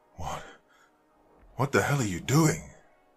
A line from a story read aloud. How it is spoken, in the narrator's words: I shouted between panted breaths